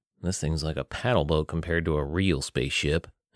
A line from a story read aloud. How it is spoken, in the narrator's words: Andrew grumbled